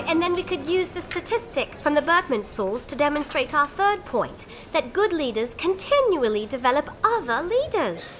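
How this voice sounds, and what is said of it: British accent. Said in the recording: “your British accent, but everything you say sounds super smart ... How do you have an accent anyway?”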